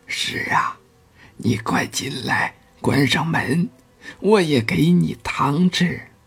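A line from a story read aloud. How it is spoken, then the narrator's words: Hushed low voice. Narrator (Chinese): 压低了声音说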